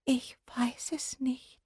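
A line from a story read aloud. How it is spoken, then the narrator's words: Frightened trembling whisper. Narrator (German): flüsterte die Haselmaus und zitterte bis in die Schwanzspitze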